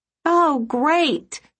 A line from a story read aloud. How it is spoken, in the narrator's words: said, shouting up at the clouds